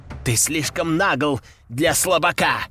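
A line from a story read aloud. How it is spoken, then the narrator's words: Two demons growling. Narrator (Russian): рыкнули теперь уже два демона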